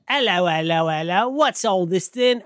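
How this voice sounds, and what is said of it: Put-on British accent. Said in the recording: “secret Brit ... do that with the voices”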